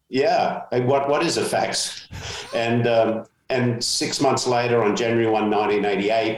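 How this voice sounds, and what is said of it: Australian accent, slightly American. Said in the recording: “my accent ... my homeland of Australia ... my mates tell me I've inherited a little bit of an American accent.”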